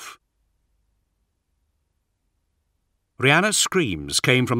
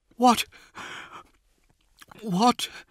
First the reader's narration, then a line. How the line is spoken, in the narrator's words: she gasped, unable to force her mind to think of the right words